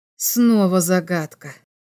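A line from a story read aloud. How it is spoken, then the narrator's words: Sigh. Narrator (Russian): вздохнул биолог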